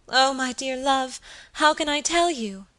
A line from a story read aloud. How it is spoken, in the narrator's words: cried my lady